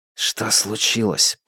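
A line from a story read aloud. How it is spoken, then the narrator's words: Whispered. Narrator (Russian): прошептал тот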